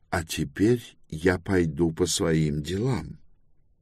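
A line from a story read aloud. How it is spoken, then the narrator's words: Calm, subtly intimidating. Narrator (Russian): Спокойно, стараясь совсем чуть-чуть возродить в сознании Руферанта его природный страх перед учеными, Гендибаль сказал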